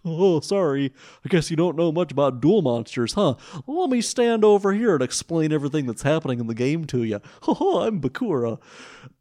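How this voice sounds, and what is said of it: Cartoonish Disney-style character voice. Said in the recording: “That's going to be my new Bakura voice ... No more English accent Bakura. He is a Disney character from now on.”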